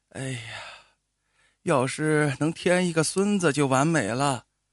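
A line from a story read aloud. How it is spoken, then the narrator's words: Sighing old woman. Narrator (Chinese): 老太太突然叹了一口气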